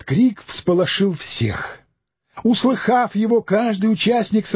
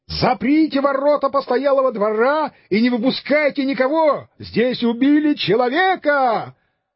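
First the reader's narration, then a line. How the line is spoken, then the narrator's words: Shouting louder, suspicious. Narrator (Russian): Побуждаемый этим подозрением, он закричал еще громче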